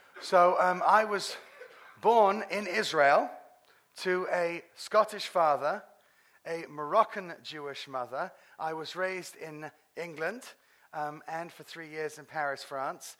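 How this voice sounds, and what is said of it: British accent. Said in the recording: “the British accent that you're hearing”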